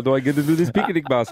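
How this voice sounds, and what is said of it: Yogi Bear attempt sounding like Dracula. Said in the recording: “What is that accent? ... I was trying for yogi, but it went Count Dracula.”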